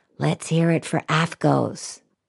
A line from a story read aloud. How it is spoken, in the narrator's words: quietly say